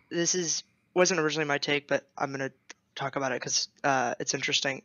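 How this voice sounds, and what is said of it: Strained, worn-out voice. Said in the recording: “My voice is ruined by finals. So that's why I sound like this.”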